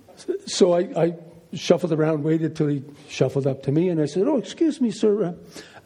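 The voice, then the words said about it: American accent. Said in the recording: “he hears my accent. He thinks I'm an American tourist”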